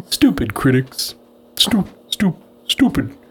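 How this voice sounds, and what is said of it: Attempted Homer Simpson impression. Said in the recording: “in a Homer Simpson voice ... I'm not good at voices.”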